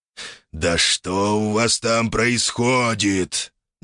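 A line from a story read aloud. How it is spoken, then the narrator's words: Displeased growl. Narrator (Russian): недовольно прорычал полубог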